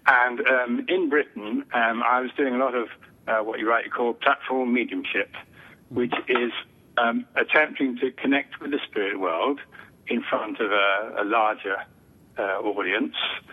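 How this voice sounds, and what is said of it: British accent. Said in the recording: “I haven't yet lost my British accent”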